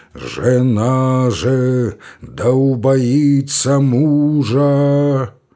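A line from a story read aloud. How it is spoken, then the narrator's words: Booming deep, terrible voice. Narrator (Russian): Громадный протодиакон трубил нечеловечески густым, могучим и страшным голосом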